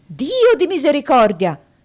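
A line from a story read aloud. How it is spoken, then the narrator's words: Doctor's exclamation. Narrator (Italian): esclamazione del dottore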